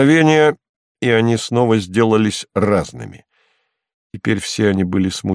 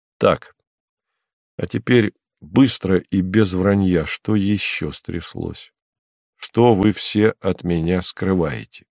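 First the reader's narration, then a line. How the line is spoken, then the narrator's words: Calm. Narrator (Russian): сказал спокойно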